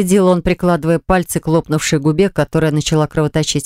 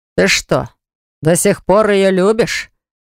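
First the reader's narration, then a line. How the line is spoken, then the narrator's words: Skeptical snort. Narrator (Russian): хмыкнул Баграт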